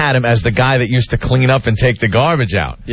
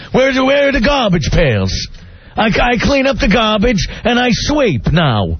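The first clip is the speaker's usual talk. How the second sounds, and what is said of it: Imitates another person's voice. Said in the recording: “There's two guys in New York that do an impression of Andrew.”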